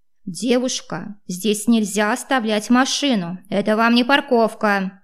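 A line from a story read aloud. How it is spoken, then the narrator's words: Deafening male bark nearby. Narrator (Russian): гаркнул мужской голос где-то совсем близко, чуть не оглушив меня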